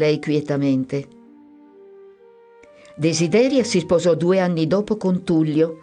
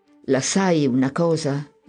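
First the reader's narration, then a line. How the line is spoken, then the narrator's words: Stammering through sobs. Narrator (Italian): mi balbettò mentre i singhiozzi lo straziavano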